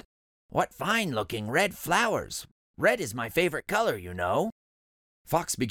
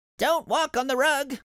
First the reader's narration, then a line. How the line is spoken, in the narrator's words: shouted Rabbit